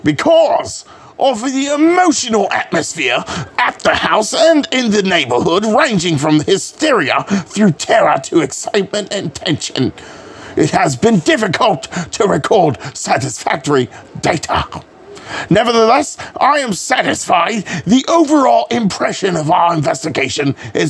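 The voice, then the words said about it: Put-on British accent. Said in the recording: “gonna have to get another uh, British accent, one that's not the same.”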